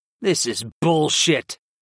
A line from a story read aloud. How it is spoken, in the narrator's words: I muttered